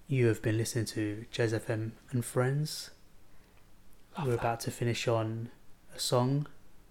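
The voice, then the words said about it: Smooth, sexy radio DJ voice. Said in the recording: “in my sexy radio voice ... it's smooth”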